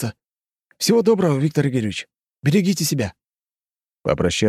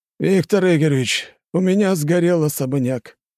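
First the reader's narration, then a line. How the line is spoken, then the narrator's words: Dejected voice. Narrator (Russian): поникшим голосом сказал Алексей Павлович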